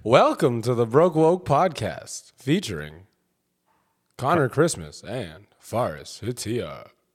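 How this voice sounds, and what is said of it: Radio announcer voice. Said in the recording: “Now you do it in your best radio voice.”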